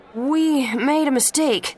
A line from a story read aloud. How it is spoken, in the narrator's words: the voice said nervously